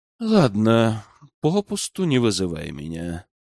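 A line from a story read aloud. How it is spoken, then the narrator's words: Weary sigh. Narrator (Russian): вздохнул устало король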